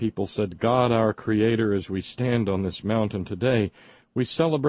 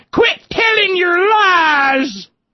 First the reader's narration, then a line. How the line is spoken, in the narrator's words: the coal wives hollered